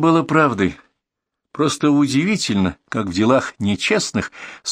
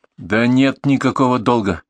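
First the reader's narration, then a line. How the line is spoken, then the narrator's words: Angry. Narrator (Russian): сказала сердито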